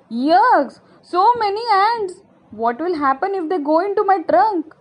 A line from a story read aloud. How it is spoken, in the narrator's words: Jumbo shouted